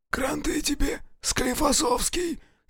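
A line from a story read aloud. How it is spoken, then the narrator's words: Hoarse sympathy. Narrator (Russian): сипло посочувствовал кто-то со шконки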